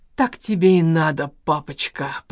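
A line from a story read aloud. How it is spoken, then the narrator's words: Hoarse wheeze. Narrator (Russian): прохрипел Валера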